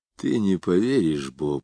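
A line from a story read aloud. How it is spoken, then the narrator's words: Sighed. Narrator (Russian): вздохнул он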